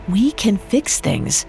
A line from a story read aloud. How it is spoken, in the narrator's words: Rufus said gently